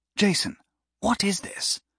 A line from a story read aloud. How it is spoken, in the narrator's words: Clive whispered